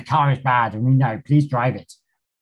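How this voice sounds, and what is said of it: Poor put-on Australian accent. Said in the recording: “That was a really rubbish Australian accent.”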